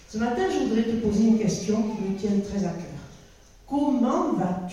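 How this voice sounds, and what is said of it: Southwestern French regional accent. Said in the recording (French): “mon sud-ouest natal ... vous avez dû entendre dans mon accent que je ne suis pas une fille alsacienne”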